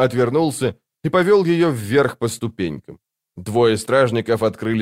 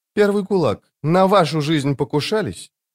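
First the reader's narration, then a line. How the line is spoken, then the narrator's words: Cheerful smirk. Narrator (Russian): Дуджик весело усмехнулся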